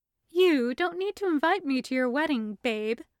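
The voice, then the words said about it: Cat character voice. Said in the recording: “putting on her best cat voice”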